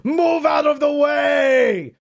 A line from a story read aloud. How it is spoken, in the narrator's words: Miro screamed